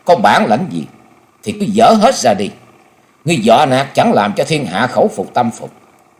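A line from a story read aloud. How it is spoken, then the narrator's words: Loud raised shout. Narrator (Vietnamese): Dịch Hương Trúc cao giọng quát lớn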